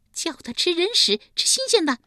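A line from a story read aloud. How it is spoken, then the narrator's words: Shrill command. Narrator (Chinese): 尖声尖气地命令道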